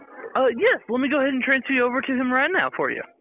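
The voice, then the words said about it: An unfamiliar accent. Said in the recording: “Don't know what kind of accent that is.”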